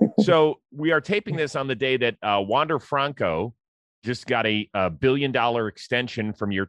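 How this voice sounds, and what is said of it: Usual voice. Nothing is said of it.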